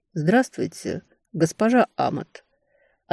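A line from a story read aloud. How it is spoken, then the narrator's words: Soft male voice. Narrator (Russian): ответили мягким мужским голосом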